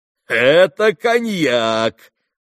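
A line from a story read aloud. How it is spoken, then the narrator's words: Loud laughter. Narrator (Russian): захохотал Митя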